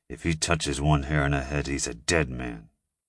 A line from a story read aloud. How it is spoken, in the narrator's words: I said through clenched teeth